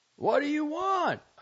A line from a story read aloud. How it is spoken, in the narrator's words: cried hollowly